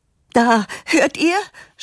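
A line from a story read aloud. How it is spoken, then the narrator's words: Mother's triumphant shout. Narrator (German): schreit die Mutter triumphierend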